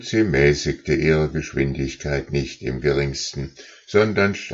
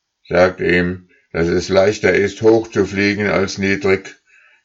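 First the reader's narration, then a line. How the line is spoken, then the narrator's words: Lead goose calling. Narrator (German): rief die Führergans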